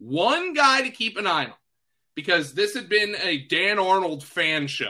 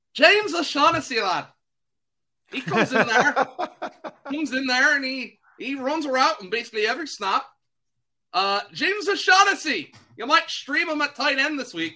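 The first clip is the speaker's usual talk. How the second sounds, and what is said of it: Bad put-on Irish accent. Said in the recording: “That is a terrible Irish accent, and I am sorry”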